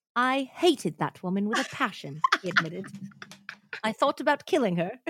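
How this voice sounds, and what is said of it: Bad attempt at British accent. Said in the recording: “Where's the British accent? ... This is bad. It's bad. ... I'm not in the British zone.”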